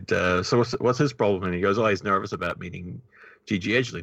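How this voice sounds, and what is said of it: New Zealand accent. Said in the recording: “where are you from? I said, New Zealand. She says, oh, I thought so. And she picked up on my accent right away.”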